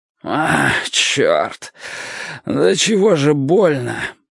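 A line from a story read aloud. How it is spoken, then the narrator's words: Pained groan. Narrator (Russian): простонал он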